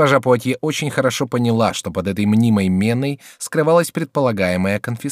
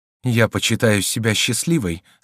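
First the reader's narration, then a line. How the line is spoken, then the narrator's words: Muffled voice. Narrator (Russian): сказала она глухим голосом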